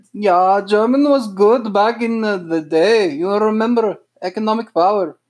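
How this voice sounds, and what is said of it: Bad put-on German accent. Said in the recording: “Really bad German accent.”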